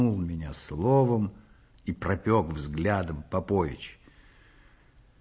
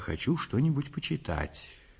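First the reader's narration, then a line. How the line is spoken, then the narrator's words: Quiet reply. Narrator (Russian): тихо отвечаю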